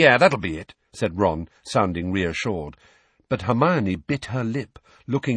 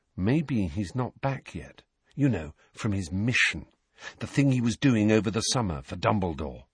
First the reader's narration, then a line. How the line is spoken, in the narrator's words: Harry said very quietly, so that Neville, Parvati and Lavender could not hear